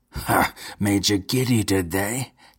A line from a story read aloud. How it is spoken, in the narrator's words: cackled Count Geral, suddenly abandoning his arrogant pose